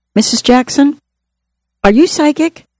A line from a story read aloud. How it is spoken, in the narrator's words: I heard someone gasp